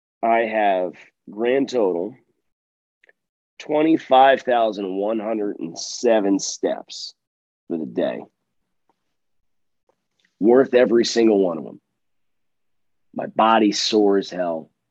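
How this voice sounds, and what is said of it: Hoarse, strained voice. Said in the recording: “My voice is shot”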